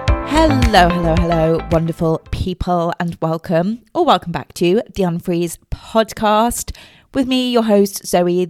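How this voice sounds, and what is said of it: Congested voice from a cold. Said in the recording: “In case you can hear it in my voice, I do have a cold”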